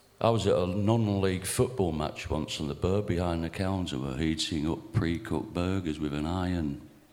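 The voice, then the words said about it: Badly done regional English accent. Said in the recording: “this features badly executed regional accents”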